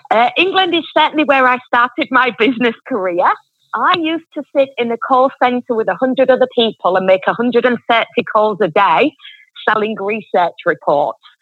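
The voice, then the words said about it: Strong northern English Yorkshire accent. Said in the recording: “accent ... from the accent, I'm from England and I'm from Yorkshire, quite northern England. Hence, it's quite a bit stronger than the average Queen's English.”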